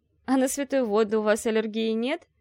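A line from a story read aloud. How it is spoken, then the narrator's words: Giggling. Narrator (Russian): хихикнула Ольга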